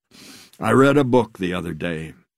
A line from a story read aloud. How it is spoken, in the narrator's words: he said